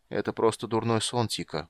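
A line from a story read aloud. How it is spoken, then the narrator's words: Mumbling. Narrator (Russian): пробормотал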